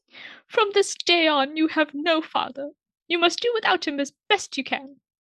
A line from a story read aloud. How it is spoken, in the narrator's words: his mother only wept the more and sobbed out